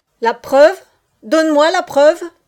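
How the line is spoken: Old soldier's sudden thunder. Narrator (French): tonna soudain le vieux soldat

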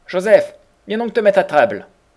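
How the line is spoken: Joyful call from next room. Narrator (French): Goulden, de la chambre voisine, me criait tout joyeux

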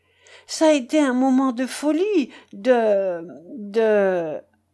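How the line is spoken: Stammering, deeply shaken. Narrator (French): balbutia Jules, profondément remué

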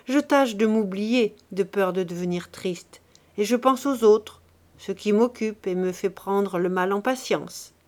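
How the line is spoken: Joking tone. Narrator (French): répondit-elle d'un ton de plaisanterie

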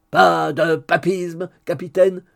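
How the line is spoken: Roaring. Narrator (French): rugit Hugues

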